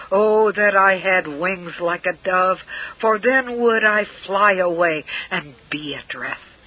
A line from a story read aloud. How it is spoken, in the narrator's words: you have cried